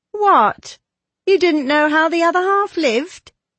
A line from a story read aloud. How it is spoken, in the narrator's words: said Diana mockingly